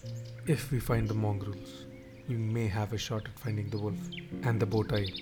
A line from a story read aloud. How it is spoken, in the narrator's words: I said